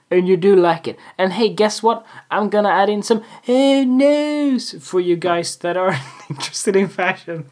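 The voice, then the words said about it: Silly put-on voice. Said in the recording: “you can listen to my silly voice, because it is silly.”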